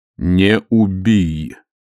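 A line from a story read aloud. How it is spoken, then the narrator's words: Slow reading aloud. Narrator (Russian): медленно прочитал Муркоу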